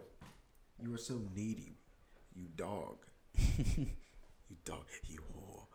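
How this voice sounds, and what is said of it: Usual voice. Nothing is said of it.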